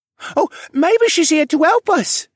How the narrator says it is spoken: Joey piped up enthusiastically

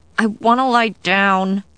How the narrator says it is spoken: I said through gritted teeth

